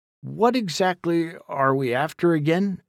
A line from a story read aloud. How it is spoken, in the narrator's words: asked Jack